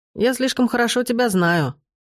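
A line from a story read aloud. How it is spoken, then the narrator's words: Snorted. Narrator (Russian): фыркнул он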